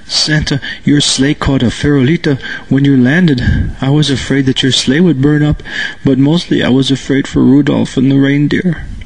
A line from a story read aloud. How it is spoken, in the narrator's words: Through his sobs, he said